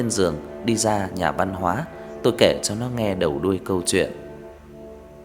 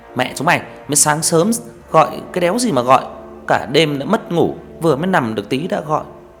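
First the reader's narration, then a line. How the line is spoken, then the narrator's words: Groggy angry shout. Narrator (Vietnamese): thằng Hợp, làm nó lồm cồm bò dậy quát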